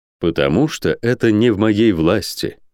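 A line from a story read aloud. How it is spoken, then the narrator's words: Calm male voice. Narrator (Russian): спокойно сказал он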